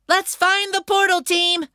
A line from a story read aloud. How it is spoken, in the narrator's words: Carr shouted